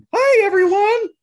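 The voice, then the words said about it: Baby Spider-Man character voice. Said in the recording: “How about Baby Spider-Man?”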